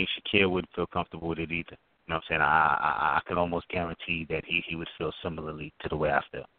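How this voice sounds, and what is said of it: Usual voice. Nothing is said of it.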